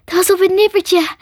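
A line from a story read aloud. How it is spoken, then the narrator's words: Panting. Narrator (Dutch): hijgde ze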